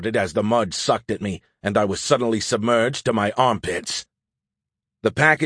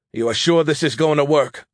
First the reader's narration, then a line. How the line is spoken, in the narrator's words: I asked anxiously